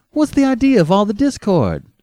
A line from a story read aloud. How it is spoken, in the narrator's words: demanded Ardita cheerfully